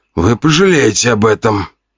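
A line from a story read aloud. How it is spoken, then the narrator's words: Man groaning. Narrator (Russian): простонал мужчина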